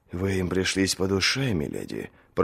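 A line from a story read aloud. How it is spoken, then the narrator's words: Whisper in ear. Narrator (Russian): прошептал ей на ухо Роберт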